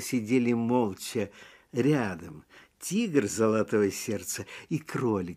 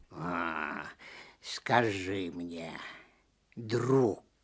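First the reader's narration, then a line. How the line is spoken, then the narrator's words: Soft, tender. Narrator (Russian): сказал он мягко и ласково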